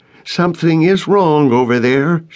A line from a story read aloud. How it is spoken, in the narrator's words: she called out